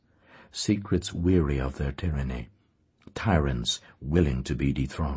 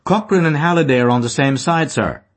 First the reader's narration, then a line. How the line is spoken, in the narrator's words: cried